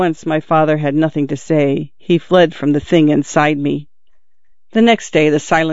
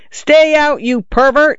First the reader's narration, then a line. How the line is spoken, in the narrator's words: I yelled in a voice not mine